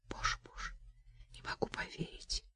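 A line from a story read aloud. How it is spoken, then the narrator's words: Whisper. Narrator (Russian): прошептала Настя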